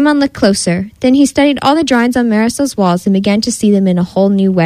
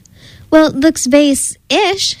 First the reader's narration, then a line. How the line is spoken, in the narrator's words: exclaimed